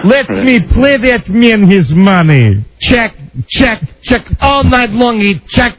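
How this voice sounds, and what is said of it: John Malkovich-style Russian accent. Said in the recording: “that John Malkovich Russian accent”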